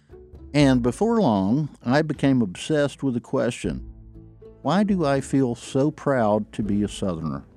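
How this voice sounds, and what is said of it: Southern US accent. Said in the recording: “I grew up in the North Georgia mountains ... Folks made fun of me because of my accent ... the way I talked”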